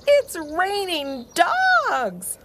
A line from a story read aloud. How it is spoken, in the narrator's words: hollered Seely